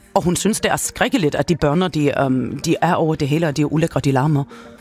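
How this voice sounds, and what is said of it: Character voice with put-on accent. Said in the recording (Danish): “de der accent ... hun taler sådan her”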